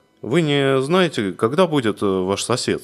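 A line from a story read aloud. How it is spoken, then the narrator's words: Plain. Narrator (Russian): спросил он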